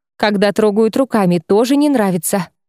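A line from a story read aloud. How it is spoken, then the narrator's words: Amused grunt. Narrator (Russian): хмыкнул Шайран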